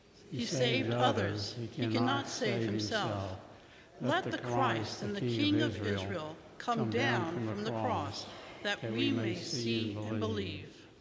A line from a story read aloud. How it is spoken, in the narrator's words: the chief priests, the scribes, mocked him among themselves and said